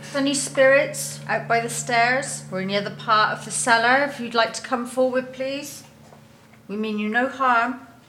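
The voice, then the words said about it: Put-on West Country accent. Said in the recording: “that's the best accent I've ever heard. ... You're really good at making that West Country accent.”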